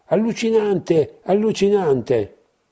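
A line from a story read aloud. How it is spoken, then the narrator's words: Shouted from a crowd. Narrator (Italian): Di mezzo a loro si sentì urlare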